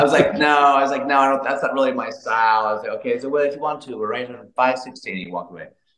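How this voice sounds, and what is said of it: Usual voice. Nothing is said of it.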